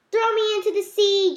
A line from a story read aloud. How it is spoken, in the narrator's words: Jonah yelled to the sailors